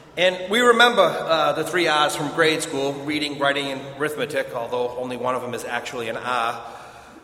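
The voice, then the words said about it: Boston accent. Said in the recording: “I'm from Boston, and every year I make a comment about my accent”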